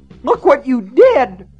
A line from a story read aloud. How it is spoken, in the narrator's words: Myra shrieked